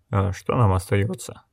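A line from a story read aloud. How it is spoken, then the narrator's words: Gruff grumble. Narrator (Russian): буркнул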